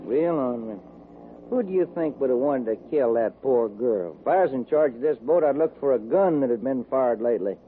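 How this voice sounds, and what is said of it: Texas drawl. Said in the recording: “do you ever get tired of that accent? ... I just talk the way folks talk in Texas. This ain't no accent, son. That's Texas talk.”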